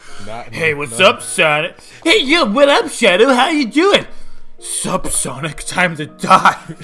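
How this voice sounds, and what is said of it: Bad cartoon character voice impressions. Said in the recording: “really bad Sonic impression and your really bad Shadow impression”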